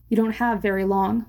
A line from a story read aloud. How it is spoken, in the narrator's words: Marina said